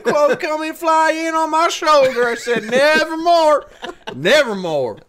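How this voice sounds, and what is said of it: Edgar Allan Poe with Deep South accent. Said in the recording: “I wish Edgar Allan Poe had an accent like that ... I'm going to do an impression of Edgar Allan Poe if he was from the deep south.”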